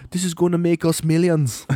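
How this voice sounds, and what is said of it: Put-on Irish accent. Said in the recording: “Why am I speaking Irish?”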